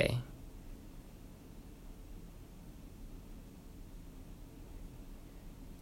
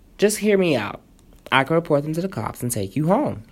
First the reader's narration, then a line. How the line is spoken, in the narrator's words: he said